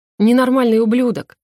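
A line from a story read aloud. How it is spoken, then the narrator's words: Man's angry smirk. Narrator (Russian): Мужчина зло усмехнулся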